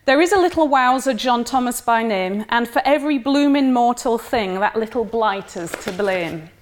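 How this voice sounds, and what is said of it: Attempted Eastwood regional English accent. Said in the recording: “This should certainly be read in an Eastwood accent, which I'm going to have to make my best shot.”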